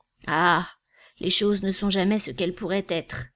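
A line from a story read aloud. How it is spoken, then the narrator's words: Old man's sigh. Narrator (French): soupira le vieillard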